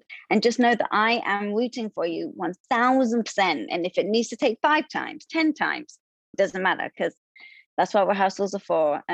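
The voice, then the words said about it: Charming non-local accent. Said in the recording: “with that accent, how can I not? It's the most adorable thing.”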